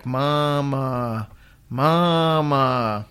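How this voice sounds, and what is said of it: Crying-out ghostly voice, drawn-out second word. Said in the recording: “kind of cry out in the middle of the night ... That's my impression ... the second Mama was longer than the first Mama”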